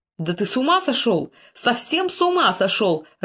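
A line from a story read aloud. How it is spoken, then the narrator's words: Irritated king shouting. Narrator (Russian): раздраженно крикнул король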